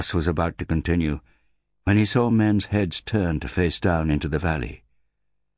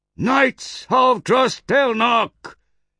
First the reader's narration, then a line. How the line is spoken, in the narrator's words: thundered the men